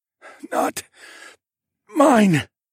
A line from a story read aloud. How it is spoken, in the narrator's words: I wheezed